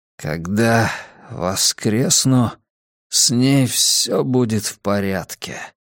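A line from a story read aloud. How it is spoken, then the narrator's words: Mumbling. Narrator (Russian): пробормотал де Сойя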